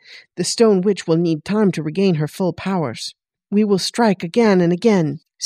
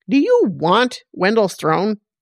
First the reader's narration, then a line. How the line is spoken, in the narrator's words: Grell snapped